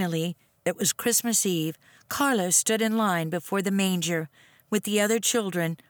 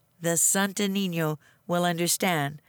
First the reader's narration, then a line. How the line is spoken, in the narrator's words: said Nina